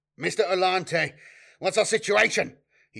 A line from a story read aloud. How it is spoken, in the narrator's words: he barked